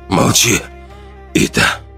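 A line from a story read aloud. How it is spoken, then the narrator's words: Hoarse strained. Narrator (Russian): Хрипло выдавил Ран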